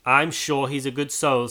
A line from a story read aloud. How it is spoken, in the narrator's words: said Mrs